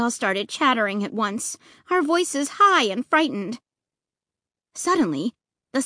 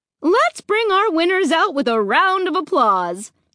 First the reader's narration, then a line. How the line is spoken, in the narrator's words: she announced cheerfully